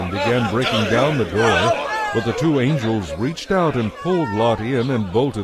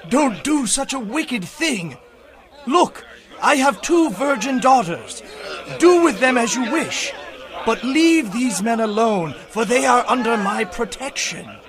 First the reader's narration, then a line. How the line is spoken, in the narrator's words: begged